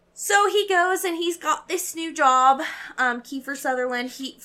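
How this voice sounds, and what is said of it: Puts on an unnamed accent. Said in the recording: “Where'd that fucking accent come from?”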